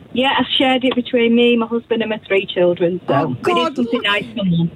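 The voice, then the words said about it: Northern English accent. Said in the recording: “That's a cute accent ... near Manchester ... Warrington”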